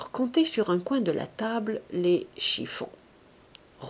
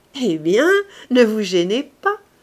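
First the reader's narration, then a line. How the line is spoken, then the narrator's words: Laughing speech. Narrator (French): dit-il en riant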